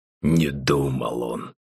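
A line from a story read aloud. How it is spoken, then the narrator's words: Displeased father grumbling. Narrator (Russian): недовольно проворчал отец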